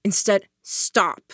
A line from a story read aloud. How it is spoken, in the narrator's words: I said, my voice firm